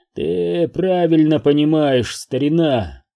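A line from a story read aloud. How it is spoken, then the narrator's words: Grumble. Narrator (Russian): Буркнул он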